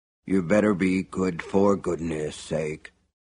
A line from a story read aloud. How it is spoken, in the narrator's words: he admonished under his breath